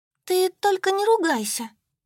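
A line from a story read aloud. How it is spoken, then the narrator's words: Squeaky. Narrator (Russian): запищала Солька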